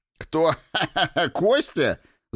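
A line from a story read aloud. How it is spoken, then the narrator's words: Laughing. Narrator (Russian): засмеялся Троцкий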